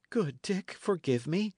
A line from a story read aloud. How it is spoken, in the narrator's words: cried the other